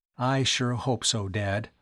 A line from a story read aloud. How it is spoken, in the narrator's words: Tom murmured